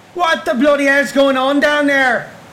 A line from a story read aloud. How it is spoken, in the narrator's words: Frank shouted